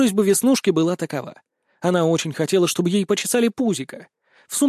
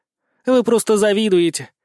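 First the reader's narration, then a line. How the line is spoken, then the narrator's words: Snorting. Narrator (Russian): хмыкнула инспектор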